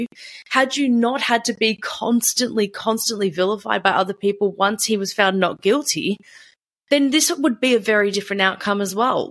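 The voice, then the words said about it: High-pitched, frustrated voice. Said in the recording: “my voice is getting really high and frustrated”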